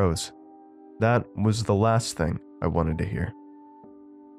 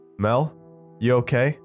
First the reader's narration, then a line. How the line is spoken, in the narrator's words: I called out